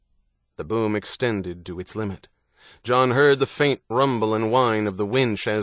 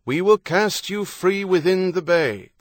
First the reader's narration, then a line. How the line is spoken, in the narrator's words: the lieutenant shouted